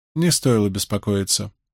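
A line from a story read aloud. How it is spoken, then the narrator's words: Deliberately flat, colorless tone. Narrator (Russian): произнесла зеленая сестра нарочито бесцветным тоном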